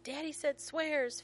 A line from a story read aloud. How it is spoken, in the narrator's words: Finn yells